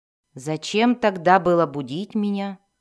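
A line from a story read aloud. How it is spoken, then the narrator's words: Grumble. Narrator (Russian): проворчал Зак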